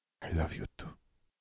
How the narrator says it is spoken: she whispered back

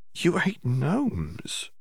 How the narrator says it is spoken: exclaimed

